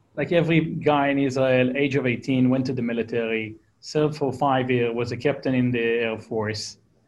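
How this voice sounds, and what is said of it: Israeli accent. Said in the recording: “Israeli. You hear by my crappy accent that I can't get rid of. I'm stuck with it.”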